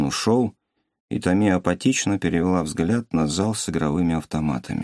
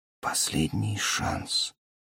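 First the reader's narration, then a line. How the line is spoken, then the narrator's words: Whispered. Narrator (Russian): прошептала Тами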